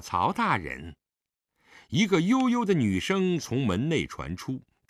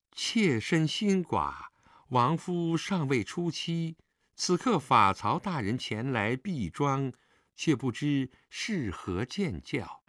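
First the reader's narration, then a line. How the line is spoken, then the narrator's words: Slow question. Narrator (Chinese): 他慢慢问道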